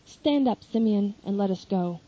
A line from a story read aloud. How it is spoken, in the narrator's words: says Gamaliel